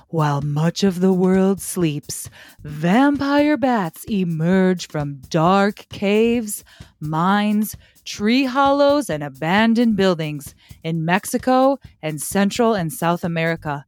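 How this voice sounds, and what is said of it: Creepy voice. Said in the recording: “I'm going to try to do this in a creepy voice.”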